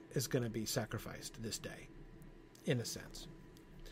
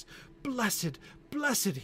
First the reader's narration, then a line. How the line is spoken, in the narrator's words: cried